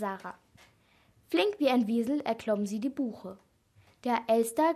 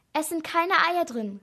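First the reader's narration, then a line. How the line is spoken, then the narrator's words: Calling out. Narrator (German): rief Sarah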